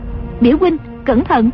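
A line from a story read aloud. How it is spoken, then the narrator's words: Cry out. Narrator (Vietnamese): Dương Ngữ Yên lại kêu lên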